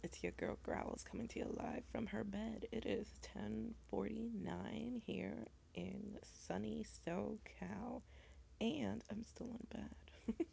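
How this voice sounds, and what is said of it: Very raspy voice. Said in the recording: “my voice is very, very raspy. More so than usual.”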